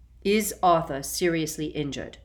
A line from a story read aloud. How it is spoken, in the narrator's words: Dumbledore said in a new and sharper voice